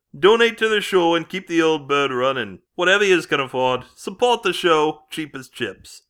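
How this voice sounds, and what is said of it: Shocking put-on accent. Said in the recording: “this shocking accent”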